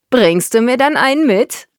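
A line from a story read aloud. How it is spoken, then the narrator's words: Call bursting with laughter. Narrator (German): rief Dennis und prustete vor Lachen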